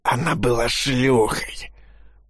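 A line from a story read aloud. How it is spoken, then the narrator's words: Hoarse rasp. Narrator (Russian): прохрипел Андрей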